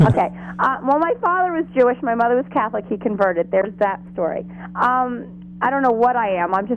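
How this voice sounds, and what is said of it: Usual voice. Nothing is said of it.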